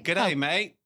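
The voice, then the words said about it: Put-on Australian accent. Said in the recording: “your best Aussie accent”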